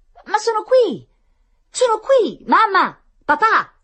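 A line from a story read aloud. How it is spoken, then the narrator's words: Shouting. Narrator (Italian): gridava Tonino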